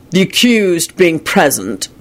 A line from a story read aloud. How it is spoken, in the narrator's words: Kingsley began in his deep, sonorous voice